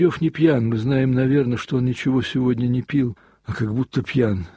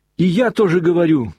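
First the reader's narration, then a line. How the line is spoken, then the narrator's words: Boy's sudden shout. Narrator (Russian): прокричал вдруг мальчик Смуров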